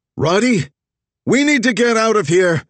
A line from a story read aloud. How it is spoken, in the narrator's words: Zig shouted, already running